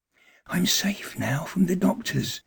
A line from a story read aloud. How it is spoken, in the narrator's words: he whispered exultantly